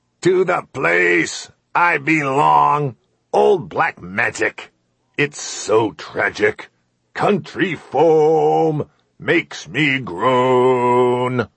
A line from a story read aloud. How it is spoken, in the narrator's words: Bellowing, the old man sang